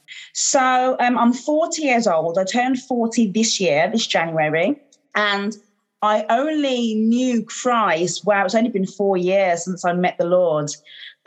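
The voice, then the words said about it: Birmingham English accent. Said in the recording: “Birmingham in the UK, as you can probably hear from my accents.”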